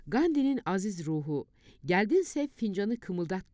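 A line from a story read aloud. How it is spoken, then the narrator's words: Very serious, confident voice. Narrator (Turkish): Necati, son derece ciddi, kendine güvenir bir sesle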